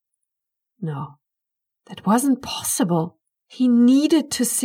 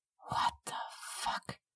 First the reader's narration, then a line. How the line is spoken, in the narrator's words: Curtis whispered